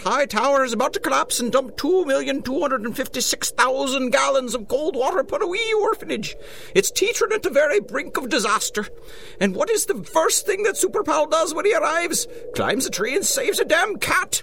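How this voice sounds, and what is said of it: Fake Irish accent. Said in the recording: “is that a real Irish accent? ... No, it's not. It's pretty good, though, ain't it?”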